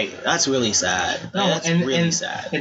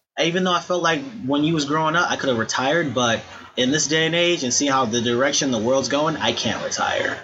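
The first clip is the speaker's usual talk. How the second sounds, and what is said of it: Old lady's slight southern accent. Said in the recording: “She's a little white lady, but she had a little southern accent.”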